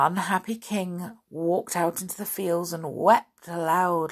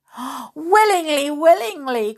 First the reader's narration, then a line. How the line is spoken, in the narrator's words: cried the king with joy